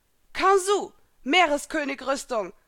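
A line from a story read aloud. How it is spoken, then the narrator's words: Called out. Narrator (German): rief Elsa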